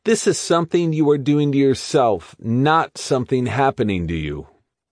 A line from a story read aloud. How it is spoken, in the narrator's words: McGee keeps yelling to me